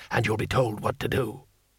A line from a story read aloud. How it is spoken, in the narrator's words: hissed